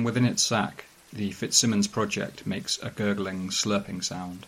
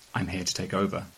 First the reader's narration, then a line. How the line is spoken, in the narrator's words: prompt him gently